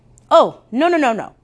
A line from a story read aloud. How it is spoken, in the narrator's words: said quickly